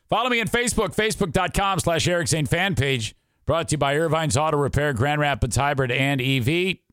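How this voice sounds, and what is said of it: Fading, worn-out voice. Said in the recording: “You can tell my voice is fading.”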